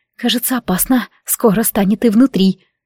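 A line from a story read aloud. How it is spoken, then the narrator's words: Fearful whisper, numb lips. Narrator (Russian): В страхе шепнула онемевшими губами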